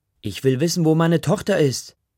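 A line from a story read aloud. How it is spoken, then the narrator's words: Shouting. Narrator (German): schreit Ma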